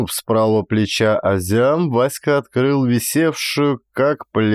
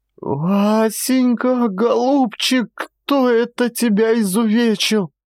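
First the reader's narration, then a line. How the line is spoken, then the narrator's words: Shouting. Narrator (Russian): закричала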